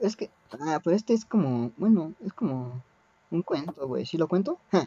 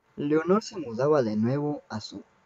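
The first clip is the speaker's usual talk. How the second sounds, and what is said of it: Put-on sexy voice. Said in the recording (Spanish): “hacer la voz más sexy que pueda”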